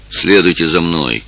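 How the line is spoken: Low rough voice. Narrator (Russian): сказал низким грубым голосом

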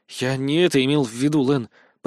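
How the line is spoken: Mutter. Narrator (Russian): пробормотал я

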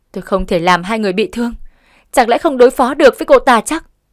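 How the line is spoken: Ghost woman's scream. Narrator (Vietnamese): Ma nữ hét lên

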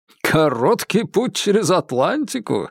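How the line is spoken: Laughing. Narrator (Russian): рассмеялся он

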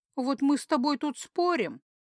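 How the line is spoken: Sincere sob. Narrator (Russian): сказала и совершенно искренне всхлипнула

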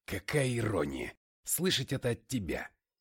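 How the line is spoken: Grumbling. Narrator (Russian): проворчал я

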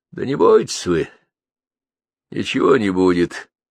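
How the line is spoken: Calm. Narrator (Russian): спокойно сказал

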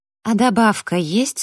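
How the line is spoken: Plain question. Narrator (Russian): спросила я Джастина

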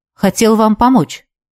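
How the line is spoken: Quiet. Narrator (Russian): негромко произнес он

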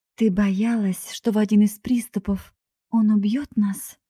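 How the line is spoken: Trembling voice. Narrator (Russian): дрожащим голосом спросила Скарлетт

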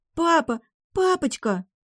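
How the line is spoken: Sobbing young girl. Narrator (Russian): рыдая, рвалась девчушка лет 10

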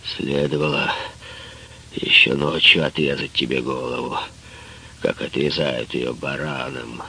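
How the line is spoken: Muffled, hollow voice. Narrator (Russian): Фаттах глухо сказал

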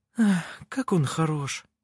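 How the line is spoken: Sighing admiringly. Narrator (Russian): вздохнула Винга

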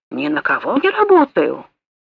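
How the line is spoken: Penitent mutter. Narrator (Russian): пробормотал, как кающийся грешник

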